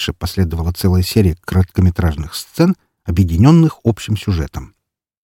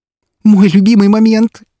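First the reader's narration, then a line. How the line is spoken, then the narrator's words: Excited squeal. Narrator (Russian): Снова завизжала Вика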